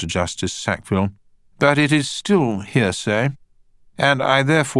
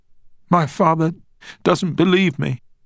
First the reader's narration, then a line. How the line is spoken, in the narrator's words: she said in between sobs